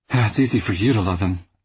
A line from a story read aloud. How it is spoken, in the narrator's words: Vivian sighed